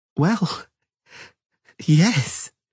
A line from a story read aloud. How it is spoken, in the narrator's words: she said in an altered, trembling voice